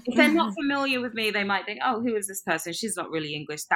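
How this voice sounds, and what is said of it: Posh British accent, slight American twang. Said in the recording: “I have this weird sort of posh slash, you know, it has a bit of an American twang, sounds a little bit Australian sometimes, but still very British at the same time”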